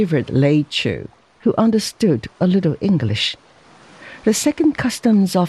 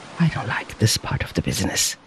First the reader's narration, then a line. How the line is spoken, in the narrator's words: he muttered